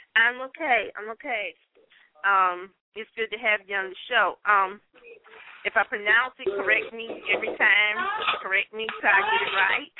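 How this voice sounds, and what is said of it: Strong Southern American accent. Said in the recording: “I have such a strong Southern accent”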